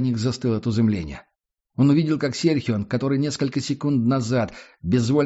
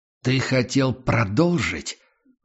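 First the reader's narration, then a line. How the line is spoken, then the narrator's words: Deep growl of attacking beast. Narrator (Russian): голос Прайса прозвучал, как утробное рычание готовящегося к атаке зверя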